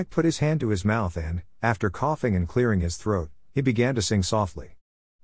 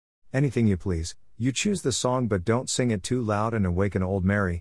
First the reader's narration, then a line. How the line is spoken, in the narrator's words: answered Harry